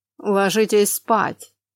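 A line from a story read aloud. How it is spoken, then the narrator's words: Icy male voice. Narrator (Russian): ледяным тоном произнес мужчина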